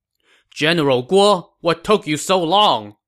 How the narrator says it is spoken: Sima Yi shouted

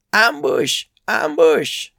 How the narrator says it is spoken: he cried

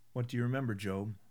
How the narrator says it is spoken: the chaplain asked

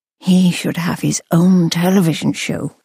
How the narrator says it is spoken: purred

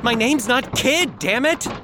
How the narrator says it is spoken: Jimmy screeched, his face turning purple with rage

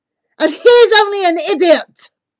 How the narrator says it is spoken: I blurt out

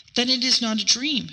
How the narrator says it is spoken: she murmured

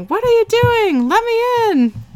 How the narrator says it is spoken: yelling

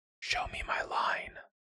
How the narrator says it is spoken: Siobhan whispered

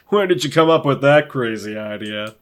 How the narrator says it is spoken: laugh it off, saying

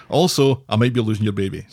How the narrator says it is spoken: says Faye

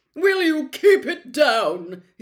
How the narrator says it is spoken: he bellowed

